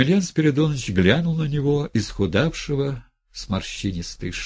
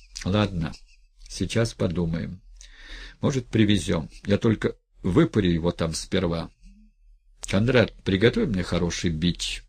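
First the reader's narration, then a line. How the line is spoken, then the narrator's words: Unexpectedly soft. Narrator (Russian): Неожиданно мягко сказал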